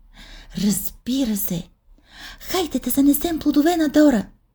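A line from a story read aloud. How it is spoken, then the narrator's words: Exclaiming. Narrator (Bulgarian): възкликна Тифани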